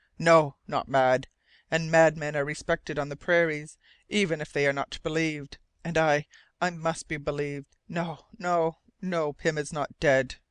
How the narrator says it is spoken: The latter cried out in a harsh tone

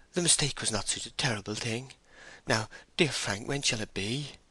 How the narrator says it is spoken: she expostulated in a trembling voice

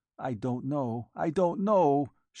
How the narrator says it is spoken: she answered brokenly

